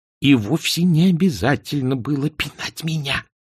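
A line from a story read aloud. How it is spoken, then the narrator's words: Hissing. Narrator (Russian): прошипел Эрик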